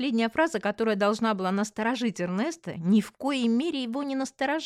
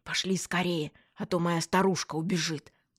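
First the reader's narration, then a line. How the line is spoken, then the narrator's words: Whisper. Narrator (Russian): зашептал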